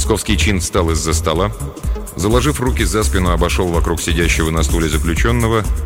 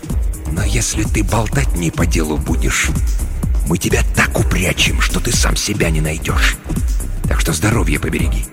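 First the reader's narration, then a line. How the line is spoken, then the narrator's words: Disgusted hiss. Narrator (Russian): брезгливо морщась, прошипел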